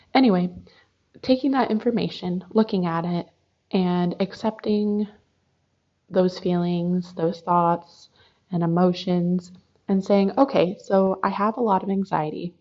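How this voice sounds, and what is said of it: Hoarse, fading voice. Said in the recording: “I am losing my voice today ... the more I talk, the more my voice goes away”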